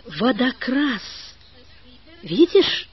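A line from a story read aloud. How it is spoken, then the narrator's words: Trembling male voice. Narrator (Russian): сказал он дрожащим голосом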